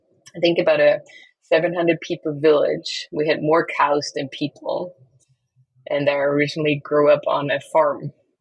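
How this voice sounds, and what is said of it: Austrian accent. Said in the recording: “the accent doesn't go away, but the accent originally is from the countryside of Austria”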